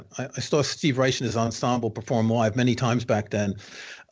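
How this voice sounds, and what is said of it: New York accent. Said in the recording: “I grew up in New York, as you can tell from my accent.”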